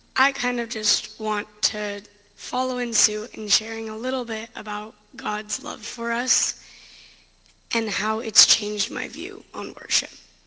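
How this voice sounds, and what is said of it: Hoarse, strained voice. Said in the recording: “pardon my voice, ... screaming, ... my voice paid the price for it”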